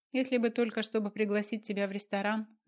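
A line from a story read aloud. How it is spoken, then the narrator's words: Laughing. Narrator (Russian): засмеялась я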